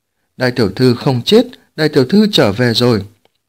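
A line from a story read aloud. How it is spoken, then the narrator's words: Joyful exclamation. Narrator (Vietnamese): mừng rỡ kêu lên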